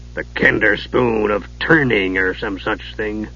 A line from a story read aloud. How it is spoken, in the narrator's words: Dugan muttered